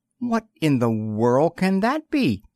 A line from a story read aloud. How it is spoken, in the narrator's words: gasped Twink